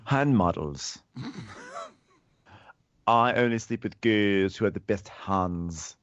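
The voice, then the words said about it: Poor put-on British accent. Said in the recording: “My accent is so messed up right now... I cannot do British accents anymore... my British accent is fucked these days”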